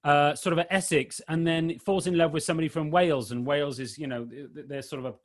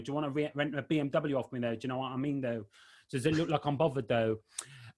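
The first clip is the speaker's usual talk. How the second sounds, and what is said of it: Put-on Essex accent. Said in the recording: “Essex is quite a distinctive accent though”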